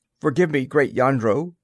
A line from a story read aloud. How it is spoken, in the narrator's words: said the officer thickly